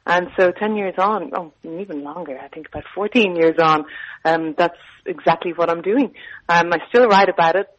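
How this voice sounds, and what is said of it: Irish accent. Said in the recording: “I'm from Ireland. I'm sure your listeners have guessed the accent by now.”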